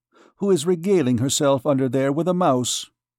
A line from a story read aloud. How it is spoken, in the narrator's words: said the archdeacon quickly